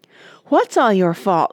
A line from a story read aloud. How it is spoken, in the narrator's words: cried Father